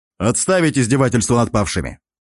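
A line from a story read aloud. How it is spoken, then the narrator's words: Sharp. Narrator (Russian): резко произнес я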